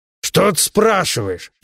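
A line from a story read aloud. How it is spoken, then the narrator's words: Roar. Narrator (Russian): взревел Бабакан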